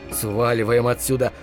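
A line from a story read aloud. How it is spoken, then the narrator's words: Muttered. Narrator (Russian): пробормотал я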